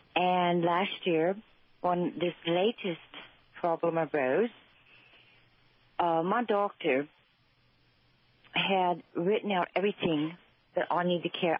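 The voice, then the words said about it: Cockney English accent. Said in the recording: “You have a lovely Cockney accent”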